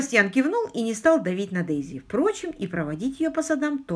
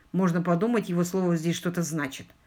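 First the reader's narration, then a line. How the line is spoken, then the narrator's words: Gruff mutter. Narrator (Russian): буркнул Себастьян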